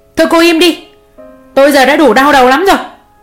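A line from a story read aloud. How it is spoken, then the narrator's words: Father snapping. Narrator (Vietnamese): Bố Nam quay sang quát mụ Hường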